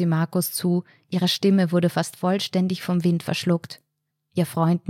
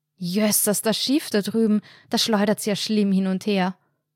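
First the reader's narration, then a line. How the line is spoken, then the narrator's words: Loud shout to be heard. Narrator (German): brüllte Anna, um sicherzustellen, dass Markus ihre Worte diesmal hören konnte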